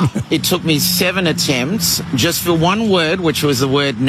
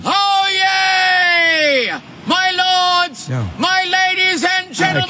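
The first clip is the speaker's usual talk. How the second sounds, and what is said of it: Loud town crier shouting. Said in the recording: “Loudest man. ... That's him as a town crier.”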